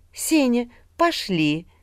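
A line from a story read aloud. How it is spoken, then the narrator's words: Tender cooing, young woman. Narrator (Russian): ласково проворковала девушка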